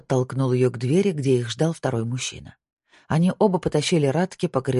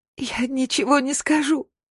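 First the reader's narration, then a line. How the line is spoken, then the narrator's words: Sobbing. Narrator (Russian): зарыдала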